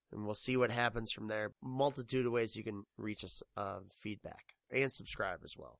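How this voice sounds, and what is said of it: Sick, strained voice. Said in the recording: “I'm sick and my voice sounds like I've been to a lot of men in stretchy pants”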